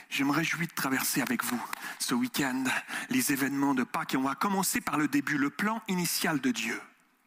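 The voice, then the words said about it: Mixed Swiss, Québécois and French accent. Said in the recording (French): “Mon accent ... Il y a un espèce de mélange entre le suisse, vous avez capté ou pas Vous avez senti la saveur ... Entre le suisse, le Québec ... il y a un truc qui sort, une expression ... Et puis, il y a un truc français”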